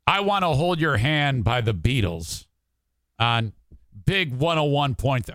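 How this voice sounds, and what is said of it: Flat, cynical, snarky delivery. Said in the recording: “My normal speaking voice is this ... I sound like a cynical, snarky asshole.”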